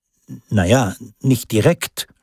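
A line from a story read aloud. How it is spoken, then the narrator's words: Evasive stammer. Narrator (German): stotterte Peter ausweichend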